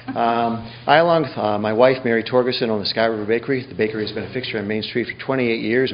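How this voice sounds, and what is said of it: Fast, flat monotone speech. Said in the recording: “I'm going to speak really fast. I speak in a monotone.”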